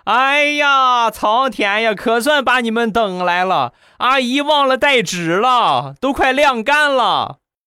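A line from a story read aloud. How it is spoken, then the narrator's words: Excited loud shout. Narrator (Chinese): 阿姨一听到我喊，很兴奋的大声喊道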